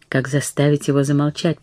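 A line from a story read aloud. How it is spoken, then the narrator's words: Terrified whisper. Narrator (Russian): прошептала Катрин в ужасе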